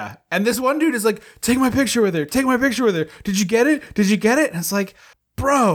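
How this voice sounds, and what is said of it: Usual voice. Nothing is said of it.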